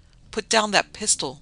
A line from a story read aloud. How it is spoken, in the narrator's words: she ordered hysterically